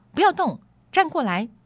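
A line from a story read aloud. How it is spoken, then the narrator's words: Witch shouting. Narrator (Chinese): 女巫喊道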